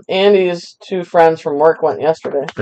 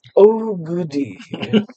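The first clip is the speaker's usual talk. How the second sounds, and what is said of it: Imitates the villain Scar's voice. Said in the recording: “my Scar impression”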